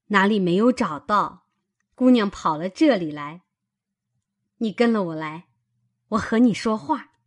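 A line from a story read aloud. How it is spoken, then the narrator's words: Laughing. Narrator (Chinese): 他嫂子笑道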